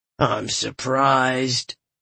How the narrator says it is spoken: Galathon said with a faint sneer

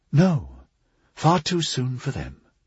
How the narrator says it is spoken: Brother Sebastian said, lowering his voice

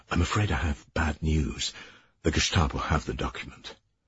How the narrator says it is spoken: he said in a quick, quiet voice

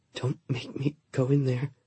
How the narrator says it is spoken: she whispered

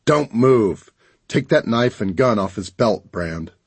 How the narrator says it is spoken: The man growled

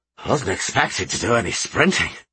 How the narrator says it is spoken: the hefty dwarf wheezed as he sank down onto the seat

